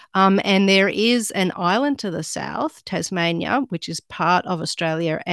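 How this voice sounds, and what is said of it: Australian accent. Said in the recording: “I'm actually Australian ... That's like with the Australian accent.”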